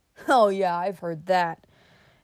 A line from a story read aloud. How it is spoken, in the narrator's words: interrupted the other with a half sneer